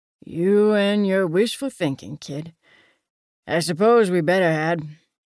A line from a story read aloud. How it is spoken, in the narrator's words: Frankie sighed